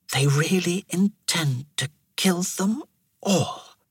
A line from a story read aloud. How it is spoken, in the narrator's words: Thera whispered